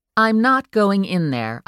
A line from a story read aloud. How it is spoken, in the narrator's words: stated firmly